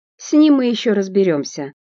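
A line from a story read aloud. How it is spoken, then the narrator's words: Rough, echoing off walls. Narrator (Russian): грубо отлетает от стен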